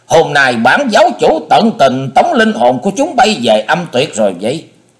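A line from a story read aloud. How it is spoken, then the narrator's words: Loud shout. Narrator (Vietnamese): Hải Ma giáo chủ thét lớn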